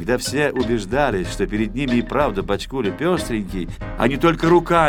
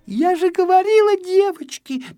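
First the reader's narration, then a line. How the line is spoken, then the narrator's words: Little girl's squeak. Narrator (Russian): пищала одна малышка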